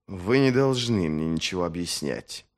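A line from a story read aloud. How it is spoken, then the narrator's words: Hissed. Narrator (Russian): прошипел он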